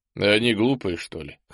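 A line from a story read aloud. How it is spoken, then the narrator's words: Chuckling. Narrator (Russian): хохотнул Ул-Эсм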